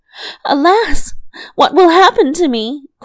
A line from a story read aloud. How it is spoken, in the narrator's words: cried she